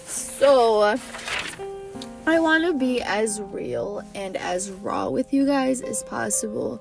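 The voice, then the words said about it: Nasal voice after crying. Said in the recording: “I just finished crying so bad ... my voice sounds a little bit like nasally”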